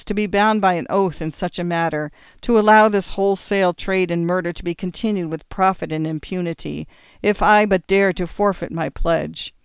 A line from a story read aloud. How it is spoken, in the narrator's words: cried the prince